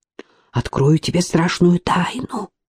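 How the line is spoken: Conspiratorial whisper. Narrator (Russian): перешла на заговорщицкий шепот Алена

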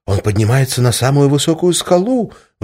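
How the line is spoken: Exclaiming young angel. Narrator (Russian): воскликнул молодой ангел

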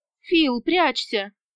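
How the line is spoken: Pleading. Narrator (Russian): взмолилась я

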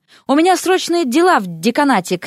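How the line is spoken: Shouted. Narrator (Russian): крикнул он

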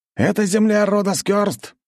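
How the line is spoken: Distant shout. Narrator (Russian): прокричали мне с той стороны

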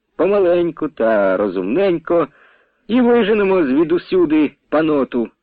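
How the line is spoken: Calm, measured. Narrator (Ukrainian): Казав спокійно, розважливо

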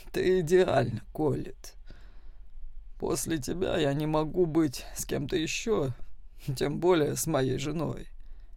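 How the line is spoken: Hoarse voice. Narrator (Russian): произнес Роберт хриплым голосом

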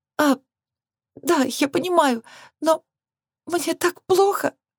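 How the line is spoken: Sobbing confession. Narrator (Russian): призналась она, снова всхлипнув

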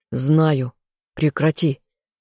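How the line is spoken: Growled. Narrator (Russian): рыкнул я

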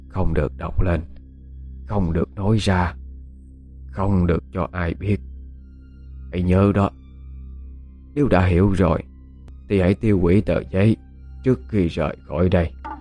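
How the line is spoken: Soft, secretive. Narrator (Vietnamese): Bà Lâm ra dấu im lặng rồi khẽ nói với Dung

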